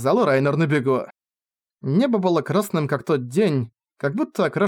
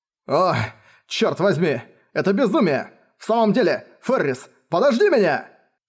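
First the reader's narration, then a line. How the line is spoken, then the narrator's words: Desperate shouting. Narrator (Russian): Он отчаянно кричал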